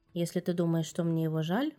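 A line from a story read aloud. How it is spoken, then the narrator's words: Gruff mutter. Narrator (Russian): буркнул Геральт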